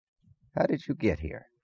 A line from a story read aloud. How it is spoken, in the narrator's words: asked softly